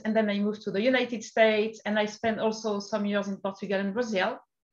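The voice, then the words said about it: French accent in English. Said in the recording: “in France to start with, like you could imagine with my accent.”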